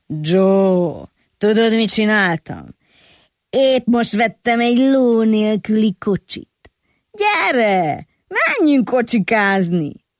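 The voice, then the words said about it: Odd, faded whiskey-roughened voice. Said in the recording (Hungarian): “fura rekettes hangon ... Fakó viszkimarta hangja volt”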